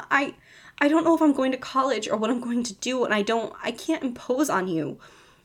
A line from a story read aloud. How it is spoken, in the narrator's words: Steve said, desperately trying to round up his thoughts